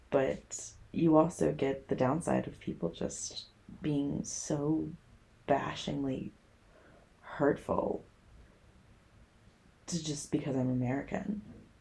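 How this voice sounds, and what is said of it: American Chicago accent. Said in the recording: “that's a little different accent you got there ... I'm from America. I'm from Chicago ... The accent hasn't left ... Oh, no, it hasn't”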